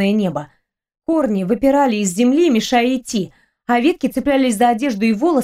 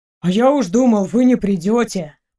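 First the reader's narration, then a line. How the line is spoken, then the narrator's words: Grumbled. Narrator (Russian): проворчал Шурка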